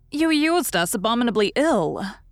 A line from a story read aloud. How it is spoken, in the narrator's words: answered Mrs